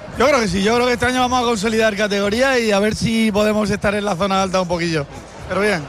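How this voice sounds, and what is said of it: Murcian Spanish accent. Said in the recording (Catalan): “té accent de Múrcia”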